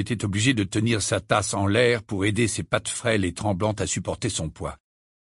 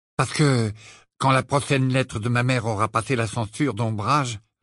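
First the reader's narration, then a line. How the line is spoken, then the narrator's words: Bitter reply. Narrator (French): répondit-il d'un ton amer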